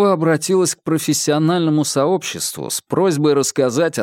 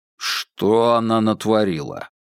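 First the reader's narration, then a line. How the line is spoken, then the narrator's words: Grumbling. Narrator (Russian): его первая фраза была не более чем ворчанием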